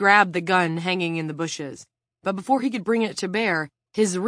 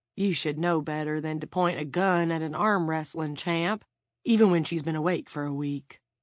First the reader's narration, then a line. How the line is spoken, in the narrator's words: Van said in an oddly gentle voice